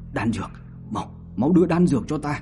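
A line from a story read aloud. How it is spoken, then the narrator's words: Weak parched begging. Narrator (Vietnamese): khóe miệng khô nứt, xin Biên Quỷ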